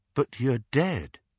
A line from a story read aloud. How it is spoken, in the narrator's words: said Harry